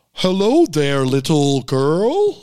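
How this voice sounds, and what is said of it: Deep disguised voice, muddled accent. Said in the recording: “Can you give me an impersonation of it? ... talking in a deeper voice ... disguises her voice ... with a lower voice ... it's an unbearable accent too. It's all over the map ... a full hodgepodge”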